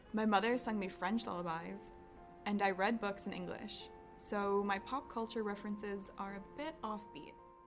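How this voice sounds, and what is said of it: American English accent. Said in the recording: “I, however, have acquired quite the American accent”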